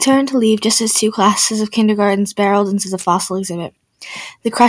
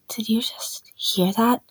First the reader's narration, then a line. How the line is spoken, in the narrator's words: asked, his voice hushed